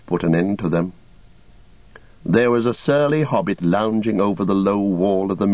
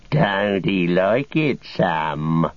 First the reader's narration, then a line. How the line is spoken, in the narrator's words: he sneered